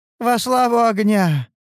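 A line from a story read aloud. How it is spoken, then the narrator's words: Tired but pleased shout. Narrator (Russian): прокричала она устало, но довольна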